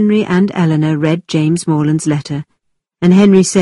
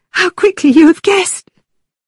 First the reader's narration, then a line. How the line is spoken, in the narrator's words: cried Catherine